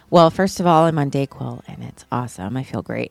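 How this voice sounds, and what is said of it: Slightly weird voice from a cold. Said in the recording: “I have a tiny bit of a cold today. My voice is a little bit weird”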